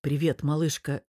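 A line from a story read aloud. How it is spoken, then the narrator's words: Sighing. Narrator (Russian): Вздохнув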